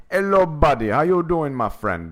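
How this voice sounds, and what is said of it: Put-on Jamaican accent. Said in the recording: “this might be my Jamaican man accent ... That sounds more like King Julian.”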